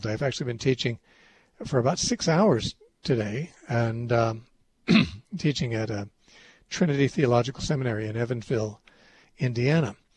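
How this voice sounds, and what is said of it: Thin, worn-out voice. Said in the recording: “My voice sounds a little different to me in my headphones than usual. It sounds thinner ... my voice is about worn out”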